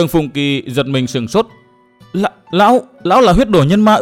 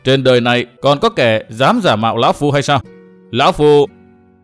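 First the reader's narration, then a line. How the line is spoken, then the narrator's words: Loud laughing. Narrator (Vietnamese): Huyết đồ nhân ma Kỳ Bạch cười to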